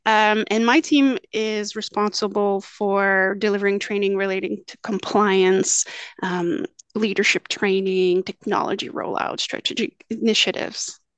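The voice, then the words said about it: Slight French accent. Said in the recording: “if you notice the little French accent, it's because I am actually Francophone”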